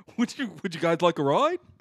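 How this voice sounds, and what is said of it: Clownish put-on voice. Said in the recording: “do you sound like a clown”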